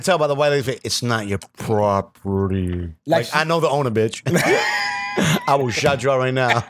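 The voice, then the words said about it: Imitates another person's voice. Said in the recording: “in my Permit Patty voice”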